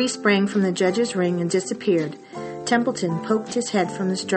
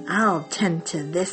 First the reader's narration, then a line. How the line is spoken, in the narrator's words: he chuckled